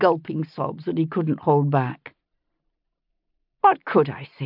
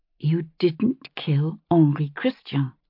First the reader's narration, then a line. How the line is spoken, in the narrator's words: I said, keeping my voice steady with some effort